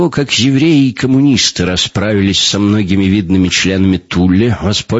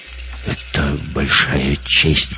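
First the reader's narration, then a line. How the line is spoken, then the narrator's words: Muttered. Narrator (Russian): пробормотал Гитлер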